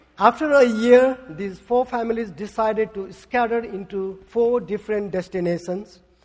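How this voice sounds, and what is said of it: Speaks with a noticeable accent. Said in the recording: “are you okay with my accent?”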